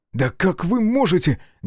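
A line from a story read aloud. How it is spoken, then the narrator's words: Angry exclamation. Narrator (Russian): гневно воскликнул Дмитрий Николаевич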